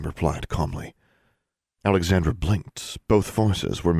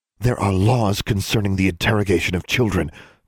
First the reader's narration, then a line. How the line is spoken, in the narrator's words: Dean Grimm snapped